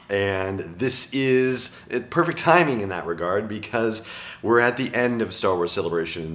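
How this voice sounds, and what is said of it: Strained, worn-out voice. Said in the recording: “As you may be able to tell, I have officially pushed my voice to the limit”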